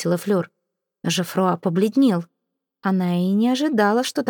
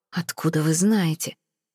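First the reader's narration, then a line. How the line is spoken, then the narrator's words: Hissing. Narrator (Russian): прошипел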